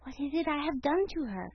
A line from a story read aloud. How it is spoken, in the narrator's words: He whispered